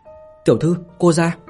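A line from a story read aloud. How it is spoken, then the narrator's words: Raised voice. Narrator (Vietnamese): thị nữ tâm phúc Liên Nhi cao giọng mà nói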